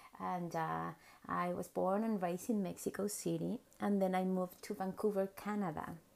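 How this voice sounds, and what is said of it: Mexican accent in English. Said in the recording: “I'm from Mexico. Of course, you can tell by my accent”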